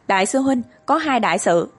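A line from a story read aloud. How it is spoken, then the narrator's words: Hasty raised call. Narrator (Vietnamese): hấp tấp, cao giọng kêu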